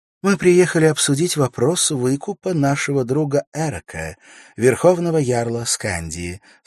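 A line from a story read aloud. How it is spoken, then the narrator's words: Calm, fairly loud. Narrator (Russian): сказала она спокойно, но достаточно громко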